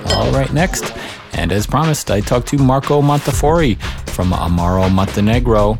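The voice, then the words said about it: Hoarse, fading voice from a cold. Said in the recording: “I had that cold last week ... the more I talk here, the more I seem to be losing my voice”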